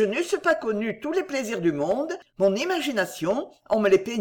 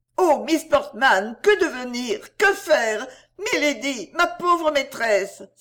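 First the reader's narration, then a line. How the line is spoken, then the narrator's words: Exclaiming. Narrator (French): s'écria-t-elle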